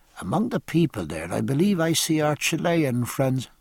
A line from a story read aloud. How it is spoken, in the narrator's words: Stephen murmured to Jack